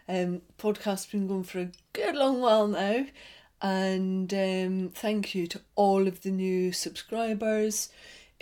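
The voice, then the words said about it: Scottish accent. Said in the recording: “the accent is very much Scottish”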